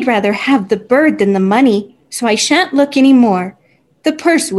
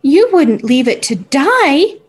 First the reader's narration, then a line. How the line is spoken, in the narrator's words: cried Tilly